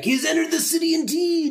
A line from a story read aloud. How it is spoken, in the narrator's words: people will scream back